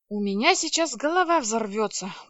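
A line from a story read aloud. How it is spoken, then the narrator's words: Grumbled mutter. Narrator (Russian): буркнула я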